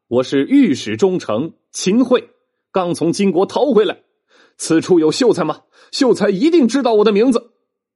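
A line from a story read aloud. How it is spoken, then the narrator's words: Hurried loud shout. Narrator (Chinese): 秦桧就忙大喊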